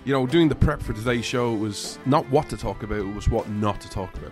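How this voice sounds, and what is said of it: Irish accent. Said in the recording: “This Irishman stands with America ... you come for the accent”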